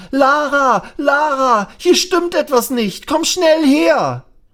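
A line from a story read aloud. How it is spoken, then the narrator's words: Loud shout. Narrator (German): schreit er laut auf und ruft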